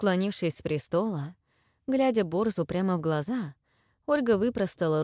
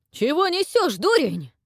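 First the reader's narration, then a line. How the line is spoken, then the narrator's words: Flustered shout. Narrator (Russian): выкрикнул вмиг покрасневший Прокша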